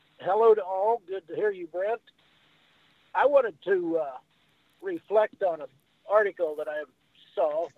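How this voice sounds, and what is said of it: Hoarse, froggy voice. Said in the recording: “My voice is a little froggy ... You're a bit froggy, but we can read you.”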